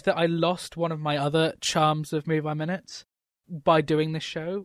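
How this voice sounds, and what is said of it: English accent. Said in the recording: “an English accent ... Brit”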